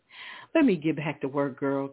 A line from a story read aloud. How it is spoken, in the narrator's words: Candace said, laughing